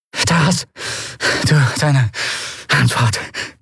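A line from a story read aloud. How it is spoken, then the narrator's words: Panting, low voice. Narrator (German): keuchte sie mit gesenkter Stimme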